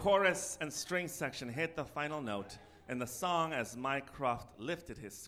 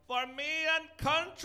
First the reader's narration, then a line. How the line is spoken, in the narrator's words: in pure ecstasy as he yelled